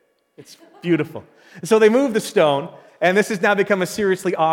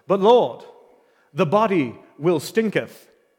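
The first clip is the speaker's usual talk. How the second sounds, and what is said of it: Put-on English accent. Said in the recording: “with the English accent”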